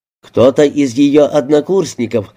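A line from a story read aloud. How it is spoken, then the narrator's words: Plain. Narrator (Russian): сказал он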